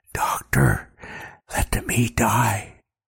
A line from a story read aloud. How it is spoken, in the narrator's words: The young man whispers in my ear